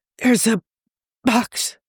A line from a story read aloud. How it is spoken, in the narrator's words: Tony hissed